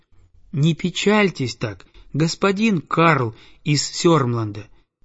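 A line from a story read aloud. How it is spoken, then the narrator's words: Plain. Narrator (Russian): говорит он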